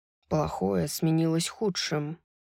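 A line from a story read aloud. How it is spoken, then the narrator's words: Quiet. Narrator (Russian): тихо сказал он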